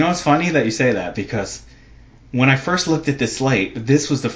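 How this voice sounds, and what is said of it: Usual voice. Nothing is said of it.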